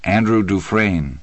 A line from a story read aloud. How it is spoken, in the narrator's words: the right-side answered